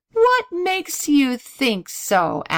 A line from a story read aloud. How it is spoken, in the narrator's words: asked Donald with a laugh